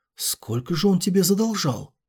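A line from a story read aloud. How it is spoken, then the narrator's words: Several voices whispering. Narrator (Russian): небожители зашептались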